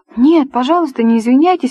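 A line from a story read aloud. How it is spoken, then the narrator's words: Ardent exclamation. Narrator (Russian): воскликнула с жаром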